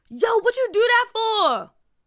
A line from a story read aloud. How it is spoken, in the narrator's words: Junior yelled